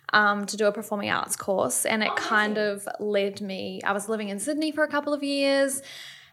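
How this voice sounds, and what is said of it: Slight New Zealand accent. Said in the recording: “I hint a bit of an accent there ... I'm from New Zealand”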